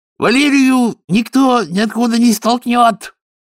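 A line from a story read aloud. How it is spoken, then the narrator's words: Barked. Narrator (Russian): рявкнула Бетти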